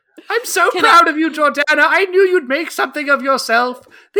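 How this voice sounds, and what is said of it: Put-on British accent. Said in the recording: “Is my mother from England now. British? What is that accent?”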